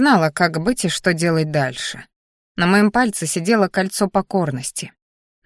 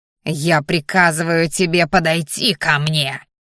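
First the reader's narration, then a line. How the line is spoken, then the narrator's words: Growl. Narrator (Russian): рыкнул очкарик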